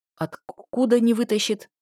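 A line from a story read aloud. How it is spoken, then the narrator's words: Stammering, backing away. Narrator (Russian): заикаясь и пятясь, спросил Айк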